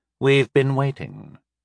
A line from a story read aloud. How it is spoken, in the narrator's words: he added coolly